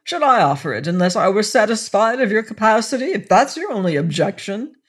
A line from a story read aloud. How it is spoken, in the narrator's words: snapped Willoughby